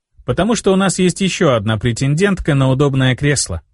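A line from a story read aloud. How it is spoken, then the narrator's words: Plain. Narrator (Russian): ответил я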